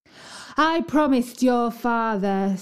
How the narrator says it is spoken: said she in a stern voice

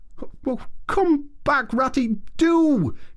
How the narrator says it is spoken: cried the Mole

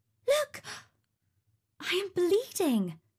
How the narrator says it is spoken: exclaimed

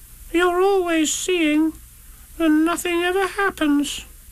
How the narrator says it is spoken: said Roo sadly

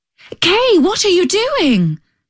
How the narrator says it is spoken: cried the little girl

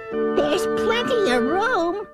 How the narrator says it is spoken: laughed the bug

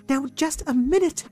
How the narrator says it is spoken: cried Pixicato

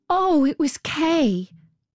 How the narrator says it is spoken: She called out his name loud

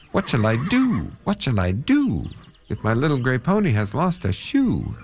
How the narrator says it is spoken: he cried out

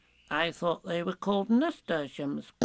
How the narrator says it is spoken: said Piglet timidly as he went on jumping

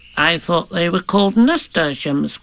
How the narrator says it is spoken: said Piglet timidly as he went on jumping

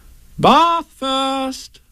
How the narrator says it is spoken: said Kanga in a cheerful voice

